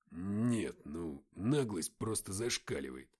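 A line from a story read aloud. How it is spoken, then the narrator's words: Mutter. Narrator (Russian): пробормотал Матвей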